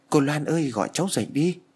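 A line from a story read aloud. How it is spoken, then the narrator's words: Desperate struggling plea. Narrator (Vietnamese): Tôi cố gắng vùng vẫy cố van xin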